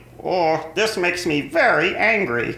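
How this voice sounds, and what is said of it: Cartoon Marvin the Martian voice. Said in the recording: “a good impression. Your voice does sound a little like him”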